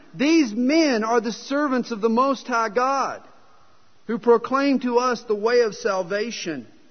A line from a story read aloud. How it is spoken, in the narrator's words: cried out saying